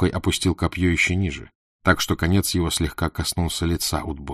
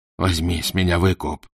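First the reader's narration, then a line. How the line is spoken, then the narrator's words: Moaning plea. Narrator (Russian): стонал Курт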